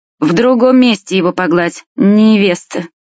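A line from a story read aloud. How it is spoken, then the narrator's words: Sudden hoarse voice. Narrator (Russian): самый младший, до этого молчавший, вдруг хриплым голосом произнес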